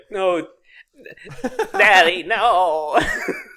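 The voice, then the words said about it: SpongeBob-style cartoon voice. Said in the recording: “doing a SpongeBob voice”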